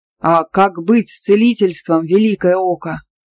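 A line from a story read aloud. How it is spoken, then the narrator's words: Exclamation. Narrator (Russian): воскликнул Сенвин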